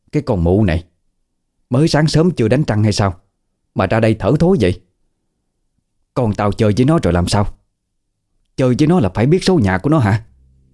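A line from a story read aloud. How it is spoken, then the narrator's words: Angry scolding. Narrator (Vietnamese): Bà Hằng tức giận, quay lại chửi vào mặt bà Thịnh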